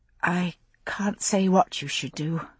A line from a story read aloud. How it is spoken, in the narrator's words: I finally said, my voice barely audible above the regular lap of the oars